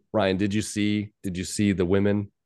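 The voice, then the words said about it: British accent impression. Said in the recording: “originally from the United Kingdom, has an accent”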